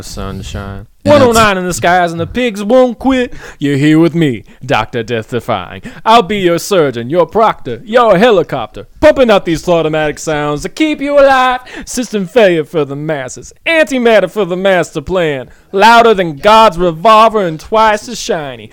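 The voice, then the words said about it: Imitates a dramatic radio MC voice. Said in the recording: “the MC voice ... Dr. Death Defiant”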